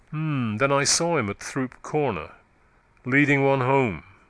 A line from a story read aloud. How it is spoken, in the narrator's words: said Venn dryly